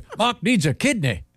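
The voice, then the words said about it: Unidentifiable put-on accent. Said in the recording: “I'm not sure what accent that is. ... Offensive? ... I'm not good at accents.”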